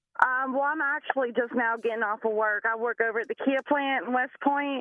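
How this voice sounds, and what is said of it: Speaks with a distinctive regional accent. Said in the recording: “You have the coolest accent. I love your accent.”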